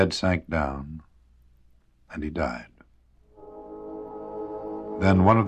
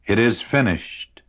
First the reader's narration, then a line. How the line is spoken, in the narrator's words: he again cried out in a loud voice